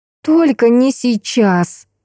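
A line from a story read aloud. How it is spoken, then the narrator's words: Pleading. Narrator (Russian): взмолилась я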